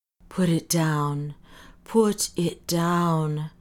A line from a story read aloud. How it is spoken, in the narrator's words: said the doctor in a choked voice